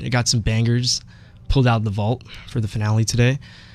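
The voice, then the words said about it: Sick, slightly congested voice. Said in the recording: “my voice sounds a bit sick today. I'm kind of recovering from some allergies”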